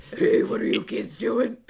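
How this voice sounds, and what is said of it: Bad gravelly Batman-style voice. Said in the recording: “his shitty Batman voice ... it's incredible how bad it is”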